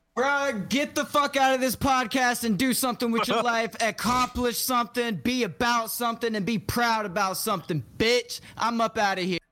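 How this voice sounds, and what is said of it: Slam poetry style delivery. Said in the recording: “get the outro in your slam voice”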